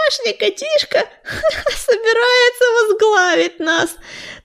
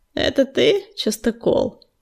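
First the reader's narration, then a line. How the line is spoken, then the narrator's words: Calm. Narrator (Russian): спокойно кивнул ему огнезвезд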